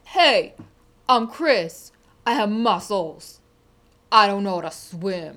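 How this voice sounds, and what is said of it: Sopranos-style tough-guy voice. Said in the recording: “I want you to impersonate me ... when did I become the typical Sopranos character?”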